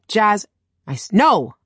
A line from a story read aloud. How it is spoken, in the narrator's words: I snapped